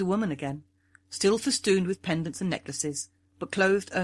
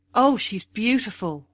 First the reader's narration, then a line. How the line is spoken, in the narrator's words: cried